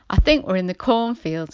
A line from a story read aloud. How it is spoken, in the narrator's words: answered Henry